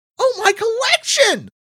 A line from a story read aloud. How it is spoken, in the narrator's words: Todd shrieks